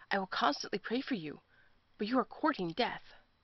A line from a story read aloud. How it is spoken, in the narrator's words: One young man said with a sob in his voice